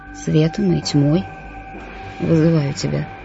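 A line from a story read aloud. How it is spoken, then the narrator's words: Whisper. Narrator (Russian): прошептали его губы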